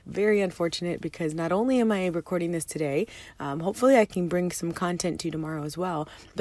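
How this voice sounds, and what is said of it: Very hoarse voice. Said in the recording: “my voice is crazy. I have a very hoarse voice.”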